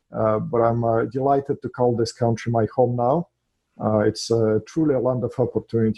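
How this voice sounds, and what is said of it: Russian accent. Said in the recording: “as you can hear from my accent, first of all, I'm not from here. I'm an immigrant in this country from Russia”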